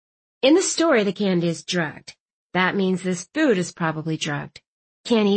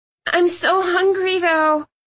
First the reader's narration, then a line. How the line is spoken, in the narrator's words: Clove whined